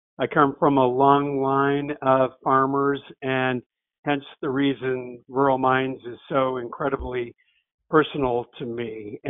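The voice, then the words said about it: Upstate New York rural accent. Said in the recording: “I thought I'd recognize your dialect. I'm from the Adirondacks, so you ... Kind of talk to me. ... You kind of talk funny.”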